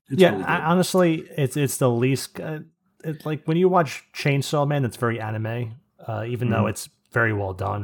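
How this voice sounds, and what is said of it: Strained, hoarse voice. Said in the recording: “I'm losing my voice this far in the episode”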